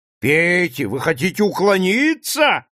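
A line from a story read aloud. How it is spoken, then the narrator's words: Yelling. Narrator (Russian): вопит Вилли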